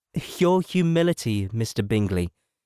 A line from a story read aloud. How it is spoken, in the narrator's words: said Elizabeth